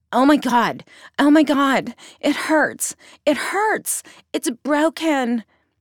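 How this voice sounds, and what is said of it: Overly dramatic, flamboyant crying voice. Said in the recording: “clearly in the tone of a gay man ... his dramatic voice”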